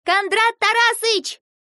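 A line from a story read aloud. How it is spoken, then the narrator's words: Shout. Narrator (Russian): крикнула Ася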